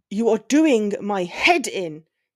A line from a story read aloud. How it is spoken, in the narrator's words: he roared, his upper lip curled and his cheekbones high with irritation